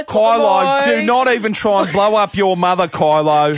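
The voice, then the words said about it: Put-on Australian accent. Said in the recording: “Kylo Ren in an Aussie accent is the best.”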